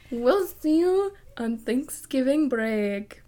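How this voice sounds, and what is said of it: Put-on accent. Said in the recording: “What was that accent?”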